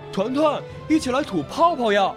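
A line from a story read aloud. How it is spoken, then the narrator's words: Hurried call, small fish. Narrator (Chinese): 小刺豚连忙喊道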